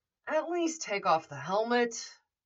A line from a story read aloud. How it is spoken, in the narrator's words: Foggy sighed